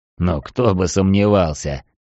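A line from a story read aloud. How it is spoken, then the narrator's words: Undertaker's skeptical snort. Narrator (Russian): хмыкнул гробовщик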